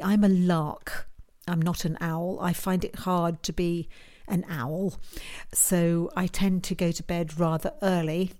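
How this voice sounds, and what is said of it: British accent. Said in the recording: “as you can tell from the accent, I'm a Brit, so I'm over here in the UK”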